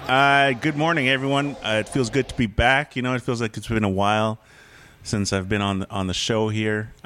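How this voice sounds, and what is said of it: Polished radio announcer voice. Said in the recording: “I got my radio voice back”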